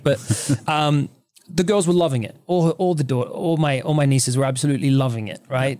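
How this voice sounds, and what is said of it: Australian accent. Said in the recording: “an Aussie ... He's lost a bit of the accent ... apologies to any listeners if my accent is giving you a bit of a headache”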